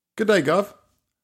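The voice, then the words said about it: Put-on British accent. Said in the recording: “I don't think he had a British accent.”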